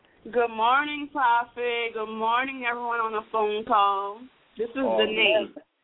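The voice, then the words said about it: Strong Louisiana Creole accent. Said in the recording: “she sounds like she all the way back down under the bayou somewhere... She got that accent real bad. Them Creoles got her real bad.”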